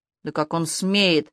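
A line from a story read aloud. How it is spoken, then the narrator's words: Choking furious roar. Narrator (Russian): Захлебываясь яростным ревом, Ирка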